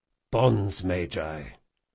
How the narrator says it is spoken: muttered Jean

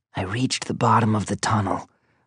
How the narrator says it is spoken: whispered back

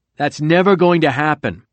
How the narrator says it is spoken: Bannon said loudly

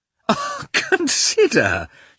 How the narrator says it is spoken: she went on, laughing

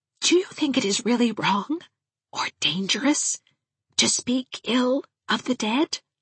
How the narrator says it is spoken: whispered Miss Valentine a bit anxiously

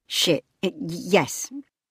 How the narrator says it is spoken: stammered Leela

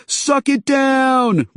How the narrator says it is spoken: cried

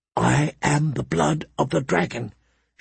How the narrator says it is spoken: she whispered aloud, trying to keep her courage up

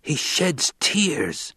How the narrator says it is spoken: A voice hissed

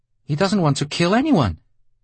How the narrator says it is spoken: she said in a shrill voice that was much too loud

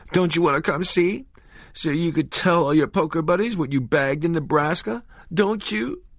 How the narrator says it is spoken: But the rest was lost in fresh sobs

